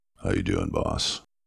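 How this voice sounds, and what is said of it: Very deep voice imitating Gene. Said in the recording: “Gene says in this really deep voice”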